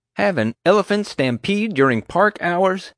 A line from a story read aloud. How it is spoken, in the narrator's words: JJ gasped, incredulous